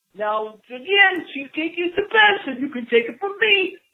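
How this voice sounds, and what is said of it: Soothing imitation of another person's voice. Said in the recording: “this is Morgan Freeman ... in my wonderful voice ... Is there really anything more soothing, though, than the sound of Morgan Freeman's voice?”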